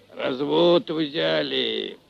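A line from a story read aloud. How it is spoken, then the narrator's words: Deep voice, older man. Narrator (Russian): пробасил немолодой казак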